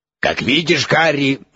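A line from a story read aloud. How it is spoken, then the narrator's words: Loud, over constant screaming. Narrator (Russian): громко заговорил Дамблдор, перекрикивая несмолкаемые вопли Скрипуна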